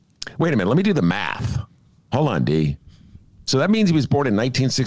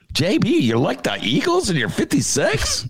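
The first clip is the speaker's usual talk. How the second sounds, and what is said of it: Imitates another person's voice. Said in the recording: “That was my JB imitation.”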